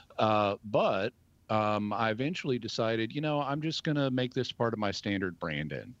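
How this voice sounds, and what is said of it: Southern American accent. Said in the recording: “my accent... I've been suppressing Southern elements in my speech, and I'm going to go back to using”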